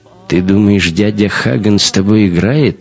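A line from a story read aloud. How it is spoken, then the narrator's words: Scoffing. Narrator (Russian): хмыкнул эсэсовец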